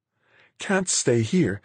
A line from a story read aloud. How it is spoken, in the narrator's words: Marguerite was saying, pleading, really